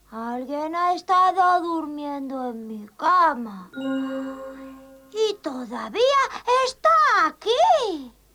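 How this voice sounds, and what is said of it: Thin little child voice, whispering. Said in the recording (Spanish): “susurró con su fina voz ... La vocecita del osito niño”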